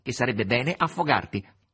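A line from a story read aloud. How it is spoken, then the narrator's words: Nasal voice. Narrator (Italian): rispose con voce nasale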